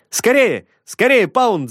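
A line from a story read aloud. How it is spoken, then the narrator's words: Breathless shouting. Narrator (Russian): запыхавшись, кричал он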